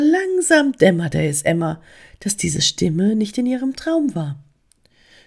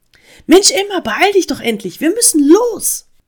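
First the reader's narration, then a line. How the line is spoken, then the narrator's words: Urgent call. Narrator (German): rief die Stimme eindringlich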